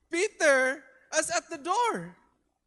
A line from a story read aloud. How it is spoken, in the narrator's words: exclaims